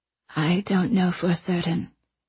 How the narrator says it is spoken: Anchoret said, her voice soft and subdued

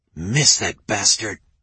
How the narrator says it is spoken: Nate hissed

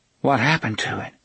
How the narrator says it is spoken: Susanna asked quietly

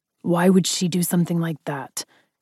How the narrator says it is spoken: he growled, obviously upset with where my mind was going

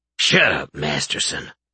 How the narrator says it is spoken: One of the guards grunted

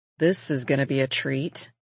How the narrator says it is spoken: Jonah mutters

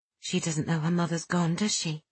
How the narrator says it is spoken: Kitty murmured

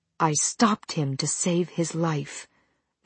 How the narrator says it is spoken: she said in a low voice

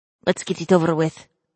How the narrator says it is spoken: she said quietly

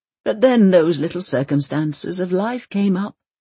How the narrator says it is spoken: Leonard sighs

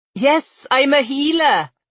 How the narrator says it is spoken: Gwenor called out in Noveshki

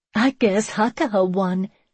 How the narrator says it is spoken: she giggled

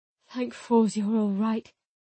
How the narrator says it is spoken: he mumbled

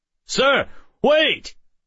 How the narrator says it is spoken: the guard shouted

